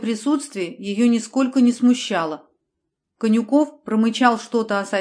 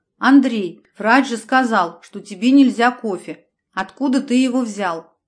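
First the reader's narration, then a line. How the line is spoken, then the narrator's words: Stern scolding. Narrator (Russian): Анжела строго отчитав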